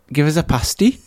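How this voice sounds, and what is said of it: Poor attempt at Newcastle accent. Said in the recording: “I can't do a Newcastle accent. It's the like... it's my worst accent by far... Anyway, I can't do it.”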